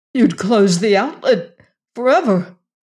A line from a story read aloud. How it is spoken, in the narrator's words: exclaimed Venters